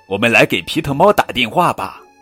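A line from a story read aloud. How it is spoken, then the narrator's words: Loud shout. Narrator (Chinese): 圣诞老人大声喊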